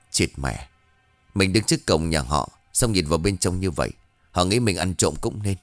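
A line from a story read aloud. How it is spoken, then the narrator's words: Muttering. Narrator (Vietnamese): miệng vừa lẩm bẩm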